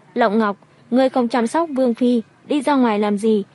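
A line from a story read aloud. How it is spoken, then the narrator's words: Raised-voice question. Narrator (Vietnamese): Đồng thủ cao giọng hỏi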